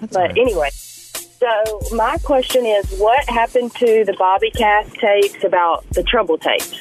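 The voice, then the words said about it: Sick-sounding voice. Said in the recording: “sorry about my voice. I'm a little sick right now.”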